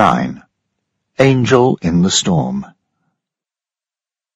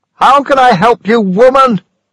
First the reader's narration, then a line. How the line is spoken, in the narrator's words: Daniel shouted at Mrs